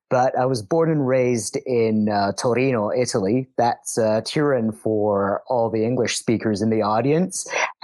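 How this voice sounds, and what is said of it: Italian-Canadian accent. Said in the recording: “I'm half Italian and I'm half Canadian, which might explain the accent.”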